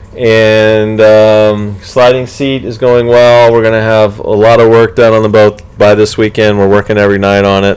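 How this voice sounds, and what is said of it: Hoarse, worn-out voice. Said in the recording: “I can't talk anymore. ... my voice is shot.”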